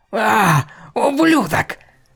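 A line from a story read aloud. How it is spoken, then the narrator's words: Yelling. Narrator (Russian): орала она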